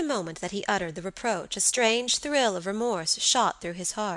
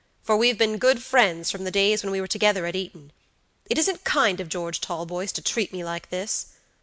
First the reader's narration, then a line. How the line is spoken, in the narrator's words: said Robert gravely